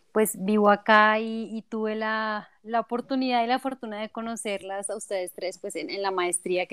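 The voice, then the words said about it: Colombian Bogotá Spanish accent. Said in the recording (Spanish): “ya por el acento creo que se darán cuenta que no soy de México, eh, yo soy colombiana, específicamente de Bogotá”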